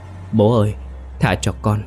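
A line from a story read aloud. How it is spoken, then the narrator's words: Trembling mumble. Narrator (Vietnamese): Hắn không ngừng run rẩy, miệng lẩm bẩm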